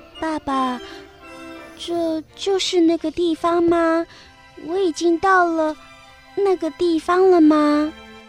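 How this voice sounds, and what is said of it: Low, slightly trembling voice. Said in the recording (Chinese): “她用低而微颤的声音说”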